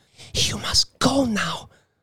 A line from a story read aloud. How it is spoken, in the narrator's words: said breathlessly